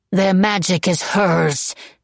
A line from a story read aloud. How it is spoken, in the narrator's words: she spat